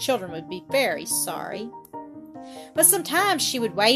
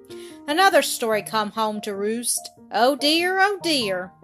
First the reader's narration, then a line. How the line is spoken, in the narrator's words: she would sigh when she opened them and say